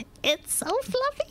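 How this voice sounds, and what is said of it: Cartoon character voice. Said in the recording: “Why do you do that voice?”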